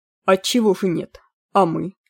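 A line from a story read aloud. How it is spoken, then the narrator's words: Cold reply. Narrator (Russian): холодно ответил Змейк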